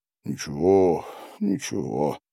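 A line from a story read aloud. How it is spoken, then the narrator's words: Mutter. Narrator (Russian): бормотал Гарин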